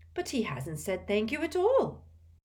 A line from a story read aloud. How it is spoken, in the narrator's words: said Hestia indignantly